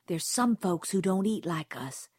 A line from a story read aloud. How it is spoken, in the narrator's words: she whispered fiercely